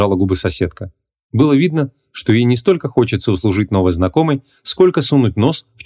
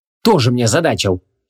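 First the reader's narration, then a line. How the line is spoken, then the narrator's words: Snorting woman. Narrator (Russian): фыркнула женщина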